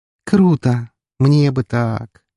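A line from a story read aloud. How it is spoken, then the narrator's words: Dreamy drawn-out female voice. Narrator (Russian): мечтательно протянула девушка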